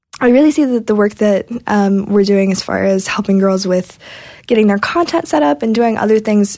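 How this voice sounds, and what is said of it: Hoarse, fading voice. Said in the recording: “like I said, I'm losing my voice.”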